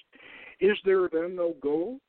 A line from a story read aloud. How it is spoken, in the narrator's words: Paracelsus laughed